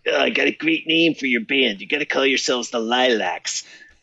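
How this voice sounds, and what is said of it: Imitated Chicago accent. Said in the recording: “I'll imitate his Chicago accent for you a little bit.”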